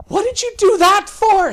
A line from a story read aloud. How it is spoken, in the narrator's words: Sally screamed